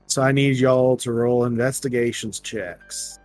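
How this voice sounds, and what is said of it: Put-on Texan accent. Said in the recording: “Did you just try to do a, like, Texan accent? ... I 100% did a Texan accent.”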